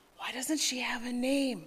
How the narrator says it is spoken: she heard someone whisper

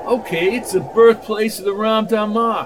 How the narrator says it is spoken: said Baker

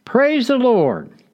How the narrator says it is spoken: the woman shouted

